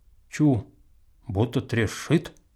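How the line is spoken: Quiet. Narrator (Russian): он тихонько говорит брату

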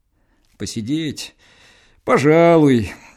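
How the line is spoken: Indifferent tone. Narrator (Russian): говорит равнодушным тоном Егор

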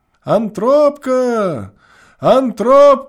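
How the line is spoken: Desperate tearful drawn-out shouting. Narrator (Russian): Кричал он с упорным и слезливым отчаянием, долго, долго вытягивая последний слог

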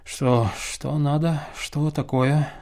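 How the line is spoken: Sleepy mumble. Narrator (Russian): забормотал он спросонья

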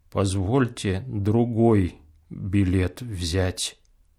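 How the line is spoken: Muffled, miserable voice. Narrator (Russian): глухо произносит несчастный

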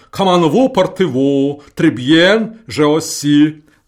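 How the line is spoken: Pleasant light bass. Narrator (Russian): говорит он приятным баском

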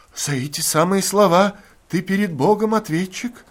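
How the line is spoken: Hoarse wheeze. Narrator (Russian): прохрипел с печки Артем

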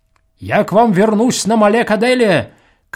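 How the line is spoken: Farewell shout. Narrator (Russian): крикнул он им на прощание

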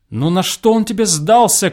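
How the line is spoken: Shouting after someone. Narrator (Russian): крикнул я ему вслед

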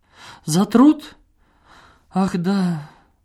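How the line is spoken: Flustered embarrassed babbling. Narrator (Russian): залепетала Надежда Петровна, сильно покраснев

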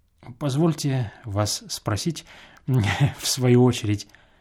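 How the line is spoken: Timid cough. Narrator (Russian): робко закашлял визави

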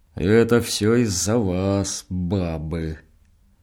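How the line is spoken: Hoarse cursing, deep droning. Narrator (Russian): Хлебников сипло ругался, а диакон гудел

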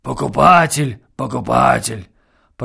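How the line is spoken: Grumbling reply. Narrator (Russian): проворчал ей в ответ Назар

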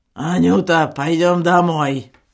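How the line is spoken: Hoarse wheeze. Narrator (Russian): прохрипел акцизный

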